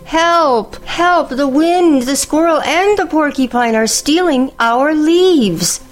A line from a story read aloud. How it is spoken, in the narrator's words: cried Fletcher